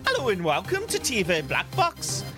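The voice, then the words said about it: Very bad put-on accent. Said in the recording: “The worst accent I've ever heard.”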